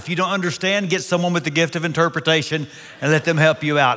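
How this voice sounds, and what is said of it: Texas accent. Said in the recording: “This is a Texas accent.”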